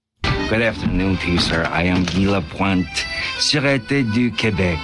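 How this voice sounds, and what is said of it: Exaggerated French Canadian accent. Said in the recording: “doing a ridiculous French Canadian accent”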